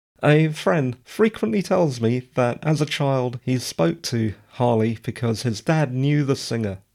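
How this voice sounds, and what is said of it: Slightly croaky voice. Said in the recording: “my voice is a bit croaky today ... rather nasty reflux ... my voice does feel a little croaky”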